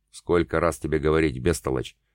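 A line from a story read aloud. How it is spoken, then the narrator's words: Absorbed, rich bass priest. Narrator (Russian): все так же погруженный в себя сочным басом ответил священник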